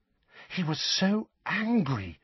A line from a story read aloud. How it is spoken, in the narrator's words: said Hermione, in an almost awestruck voice